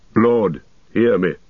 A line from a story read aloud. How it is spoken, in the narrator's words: he said